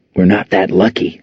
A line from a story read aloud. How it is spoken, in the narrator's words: Saint whispered back